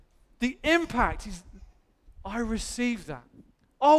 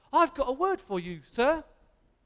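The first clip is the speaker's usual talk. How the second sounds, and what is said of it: Put-on Cockney accent. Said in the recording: “Don't know why I did a Cockney accent.”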